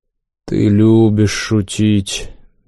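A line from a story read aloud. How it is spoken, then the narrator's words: Holy fool, flat drawl. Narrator (Russian): бесцветно протянул юродивый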